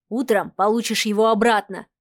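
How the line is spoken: Man's snort. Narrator (Russian): хмыкнул мужчина

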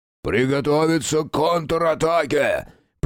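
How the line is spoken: Hoarse, strained, spellbound. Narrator (Russian): прохрипел череп, с трудом поднимаясь на ноги и завороженно глядя на поле боя

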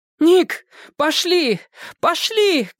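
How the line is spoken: Urgent shout. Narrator (Russian): крикнула Френ

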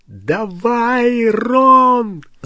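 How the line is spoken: Yelled. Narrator (Russian): завопил Гарри

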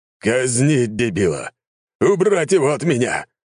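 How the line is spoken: Roaring. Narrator (Russian): взревел он

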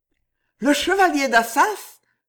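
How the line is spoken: Exclaimed. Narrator (French): s'écria Jeanne

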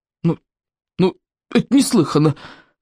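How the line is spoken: Uncertain objection. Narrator (Russian): неуверенно возразила Берта

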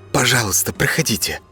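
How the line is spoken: Obsequious whisper. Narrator (Russian): услужливо шепнул официант в птичьей маске

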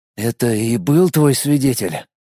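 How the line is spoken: Hoarse strange-voiced question. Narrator (Russian): хриплым каким-то чужим голосом спросил он Матвеева

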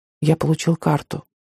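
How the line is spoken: Quiet. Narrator (Russian): тихо сказал Пигот

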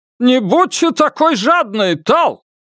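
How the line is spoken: Haughty man shouting. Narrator (Russian): крикнул какой-то надменный мужчина

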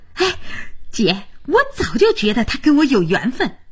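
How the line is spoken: Gleeful, delighted. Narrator (Chinese): 佳音乐不可支地跟着

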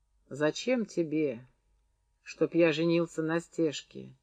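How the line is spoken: Quiet question. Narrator (Russian): тихо спросил фрол

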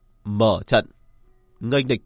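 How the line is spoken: Raised commanding voice. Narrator (Vietnamese): cất cao giọng

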